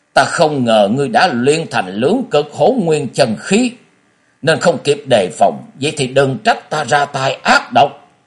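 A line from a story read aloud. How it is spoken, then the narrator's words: Sudden shout. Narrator (Vietnamese): Phù Tan Mổ Mổ bỗng quát lên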